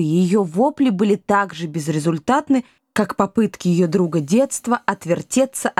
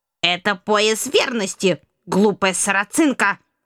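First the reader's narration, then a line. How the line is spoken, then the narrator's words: Indignant sharp shout. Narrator (Russian): возмущенно прикрикнула баронесса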